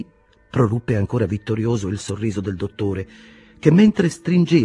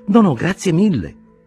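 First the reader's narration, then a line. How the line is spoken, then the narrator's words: Exclamation. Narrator (Italian): esclamò Castorp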